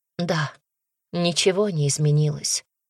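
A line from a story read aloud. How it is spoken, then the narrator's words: Sad agreement. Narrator (Russian): грустно согласилась она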